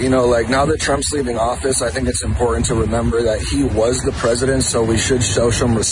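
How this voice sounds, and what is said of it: Usual voice. Nothing is said of it.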